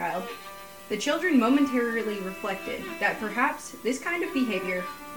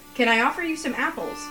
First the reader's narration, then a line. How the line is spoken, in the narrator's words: asked the tree eagerly